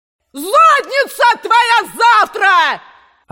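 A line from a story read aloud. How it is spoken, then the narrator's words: Woman yelling back. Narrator (Russian): орала она в ответ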